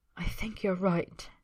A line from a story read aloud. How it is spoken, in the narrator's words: he whispers, breathing shallow